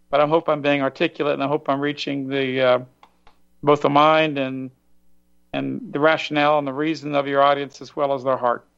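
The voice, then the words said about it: Hoarse, tired-sounding voice. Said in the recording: “I'm a little tired, too. ... I'm kind of losing my voice.”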